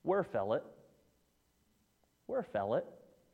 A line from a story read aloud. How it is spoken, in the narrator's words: calmly, in his calm demeanor, comes over and says